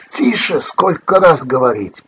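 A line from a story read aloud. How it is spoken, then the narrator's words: Sharp scolding shout. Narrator (Russian): прикрикнул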